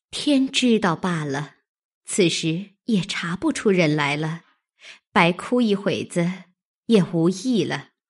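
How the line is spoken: Sighing. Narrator (Chinese): 袭人 因叹道

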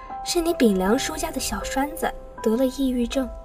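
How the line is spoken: Sighing woman's voice. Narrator (Chinese): 小梁的母亲叹了口气，说

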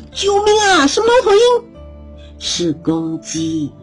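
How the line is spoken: Panicked shout. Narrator (Chinese): 小点子大叫

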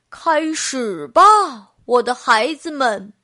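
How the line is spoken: Loud call. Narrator (Chinese): 爸爸高声喊道

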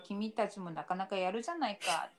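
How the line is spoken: Plain. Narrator (Japanese): って言って

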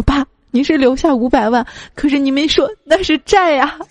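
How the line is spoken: Child sobbing uncontrollably. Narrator (Chinese): 孩子失声大哭说

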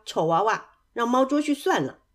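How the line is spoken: Mocking teasing. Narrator (Chinese): 他自己的兄弟们也开始取笑他

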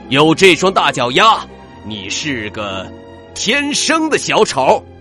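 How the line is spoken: Roaring. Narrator (Chinese): 牛老师大吼

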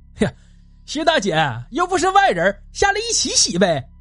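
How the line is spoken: Pleased, laughing. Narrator (Chinese): 关大像是捡到了便宜，笑着说

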